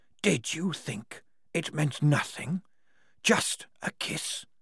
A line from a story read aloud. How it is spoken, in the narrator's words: The whispered words washed against the walls like surf and came back stronger in harmonies